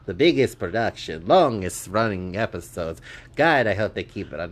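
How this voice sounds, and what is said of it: Put-on Italian accent. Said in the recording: “Why are you talking in an Italian accent?”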